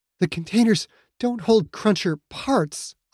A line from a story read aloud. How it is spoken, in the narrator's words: Aya said, that fear making her voice tremble